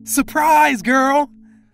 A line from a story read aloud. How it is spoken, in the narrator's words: a loud voice yelled